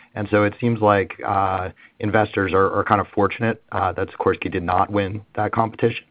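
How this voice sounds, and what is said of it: Hoarse, strained voice. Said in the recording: “I'm losing my voice a little bit here.”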